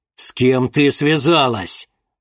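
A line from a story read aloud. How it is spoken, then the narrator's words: Angry barking snarl. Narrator (Russian): Злобно рявкнул чернокнижец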